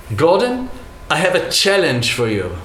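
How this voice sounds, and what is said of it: Imitated accent of another man. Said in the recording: “I'll try to do his accent.”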